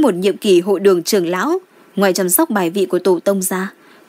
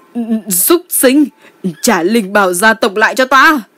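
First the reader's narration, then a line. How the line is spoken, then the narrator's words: Frenzied shouting. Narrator (Vietnamese): ông ta hét lên điên cuồng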